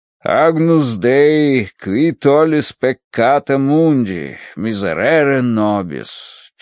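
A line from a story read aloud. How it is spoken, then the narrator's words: Chanted. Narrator (Russian): читал нараспев отец Рош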